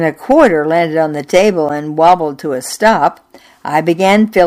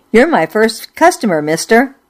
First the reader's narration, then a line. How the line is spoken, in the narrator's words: blurted